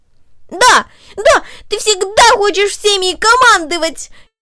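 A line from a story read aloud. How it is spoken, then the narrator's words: Furious shout. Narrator (Russian): яростно выкрикнул он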